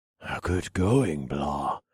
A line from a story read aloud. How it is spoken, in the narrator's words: I whispered to the little dragon